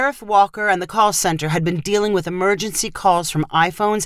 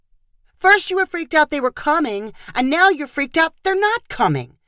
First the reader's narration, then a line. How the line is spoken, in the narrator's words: Chloe yelled at him